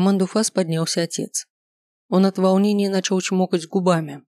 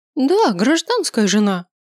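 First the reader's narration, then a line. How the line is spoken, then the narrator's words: Proud group exclamation. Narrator (Russian): гордо воскликнули дочери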